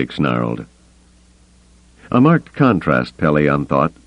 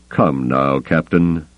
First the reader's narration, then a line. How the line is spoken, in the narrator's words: Thrawn admonished him calmly